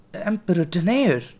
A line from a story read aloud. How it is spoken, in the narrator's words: Vera exclaimed, clasping her hand to her mouth